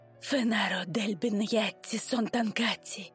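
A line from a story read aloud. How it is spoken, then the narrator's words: Whispered. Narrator (Russian): прошептала она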